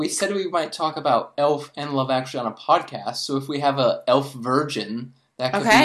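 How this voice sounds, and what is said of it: Usual voice. Nothing is said of it.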